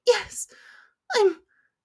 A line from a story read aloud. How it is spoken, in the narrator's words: Hermione cries out